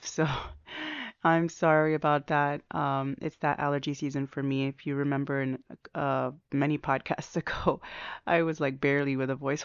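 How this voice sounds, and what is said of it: Slightly off, allergy-affected voice. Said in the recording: “pardon my voice. I have been going through some allergies again. I think my voice is mostly okay, but it's a little bit off.”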